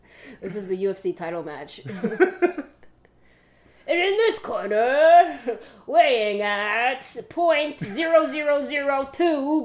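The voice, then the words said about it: Hyped-up fight announcer voice. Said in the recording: “announcer voice”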